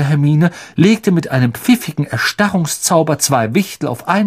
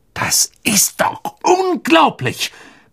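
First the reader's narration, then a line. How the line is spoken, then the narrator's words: Roaring in pain. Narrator (German): brüllte Ron, als einer der verbliebenen Wichtel ihn ins Ohr biss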